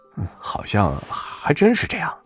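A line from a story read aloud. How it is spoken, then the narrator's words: Muttering. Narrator (Chinese): 彭庄 嘀咕着说道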